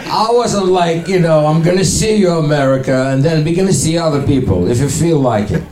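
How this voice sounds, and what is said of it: Russian accent. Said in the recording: “my accent ... I'm from Ukraine, but I still have fucking Russian accent, and it's terrible.”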